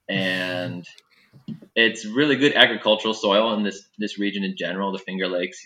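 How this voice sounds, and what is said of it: Upstate New York accent. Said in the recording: “this upstate New York accent”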